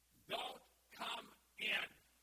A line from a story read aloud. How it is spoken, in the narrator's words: All of the students scream